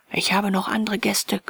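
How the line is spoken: Hotelier growling. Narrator (German): knurrte der Hotelier

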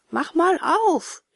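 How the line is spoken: Calling repeatedly from the street. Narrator (German): rief Seppel immerfort auf der Straße

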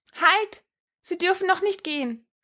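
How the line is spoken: Called out. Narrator (German): erwiderte, rief

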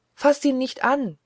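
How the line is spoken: Terrified cry. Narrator (German): rief sie, und Todesangst war in ihrer Stimme

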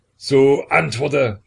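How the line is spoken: Convulsed shout. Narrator (German): schrie Peter, während sein Gesicht in einem Krampfe zuckte

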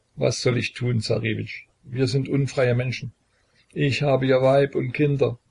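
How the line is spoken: Stammering. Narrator (German): stammelte Pater Matfej

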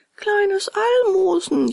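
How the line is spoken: Cat wailing. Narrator (German): jammerte die Katze hintendrein

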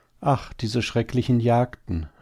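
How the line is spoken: Sighing female hare. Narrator (German): seufzte die Häsin

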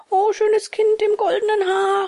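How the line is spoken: Calling out. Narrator (German): rief Bengele

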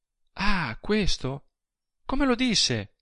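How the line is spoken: Struck woman exclaiming. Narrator (Italian): esclamò ella colpita

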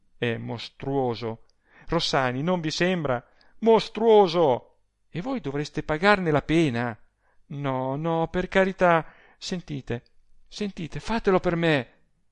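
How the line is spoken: Pleading. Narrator (Italian): supplicando

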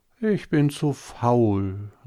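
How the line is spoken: Sighing. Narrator (German): sagte es und seufzte

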